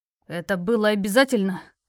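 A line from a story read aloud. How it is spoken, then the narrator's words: Growled. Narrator (Russian): Прорычал он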